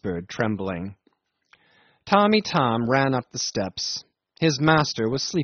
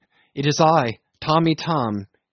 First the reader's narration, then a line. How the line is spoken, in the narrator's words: he cried at the door